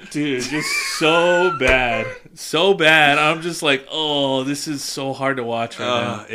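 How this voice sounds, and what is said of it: Usual voice. Nothing is said of it.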